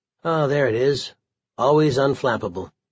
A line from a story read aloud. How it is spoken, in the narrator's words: calmly said